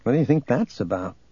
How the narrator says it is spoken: Luke murmured to Gariel

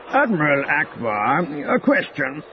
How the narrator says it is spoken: Senator Tolik Yar called out

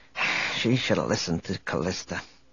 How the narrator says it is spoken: Speaking more to himself than to Chewbacca, he muttered

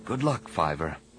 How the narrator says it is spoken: Anakin whispered

